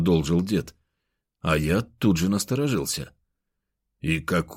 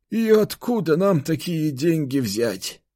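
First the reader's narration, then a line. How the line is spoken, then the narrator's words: Sorrowful sigh. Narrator (Russian): горестно вздохнул он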